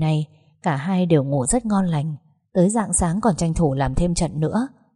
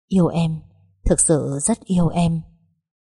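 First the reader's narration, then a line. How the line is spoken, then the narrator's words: Tender murmur. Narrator (Vietnamese): anh vẫn thủ thỉ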